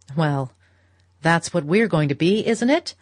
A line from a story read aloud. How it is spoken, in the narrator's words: cried her husband gaily